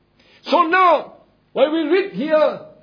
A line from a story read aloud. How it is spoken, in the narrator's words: cried with a loud voice as when a lion roared